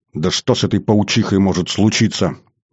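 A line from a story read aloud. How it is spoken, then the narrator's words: Rather angry. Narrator (Russian): довольно зло ответил Жорик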